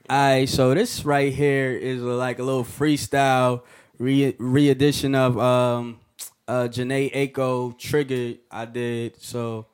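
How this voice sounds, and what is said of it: Slightly hoarse male voice. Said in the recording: “excuse my voice right now, because you know what I'm saying, it's a little hoarse.”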